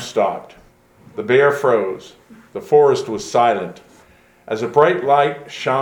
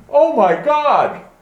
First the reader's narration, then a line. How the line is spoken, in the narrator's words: the atheist cried out